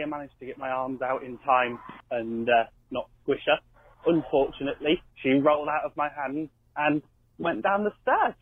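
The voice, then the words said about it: British regional accent. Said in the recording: “what a great accent you had ... It sounded like, where was he from? Liverpool? ... Was that Welsh, maybe? ... Somewhere in the UK. ... I could listen to him talk all day with that accent”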